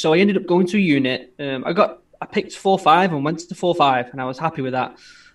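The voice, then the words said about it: Northern English accent. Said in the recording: “You've got a northern accent,”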